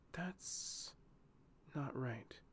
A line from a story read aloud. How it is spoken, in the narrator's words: she whispered